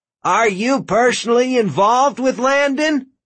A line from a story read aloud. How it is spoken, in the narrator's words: Duncan called out